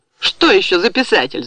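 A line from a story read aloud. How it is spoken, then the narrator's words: Shouted. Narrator (Russian): закричала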